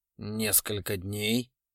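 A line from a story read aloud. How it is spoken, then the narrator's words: Hoarse reply. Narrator (Russian): хрипло ответил Вильяминов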